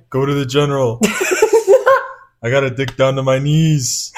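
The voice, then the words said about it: Imitates another person's voice. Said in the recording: “That was actually a pretty good Shaq impression. ... Why is that so good?”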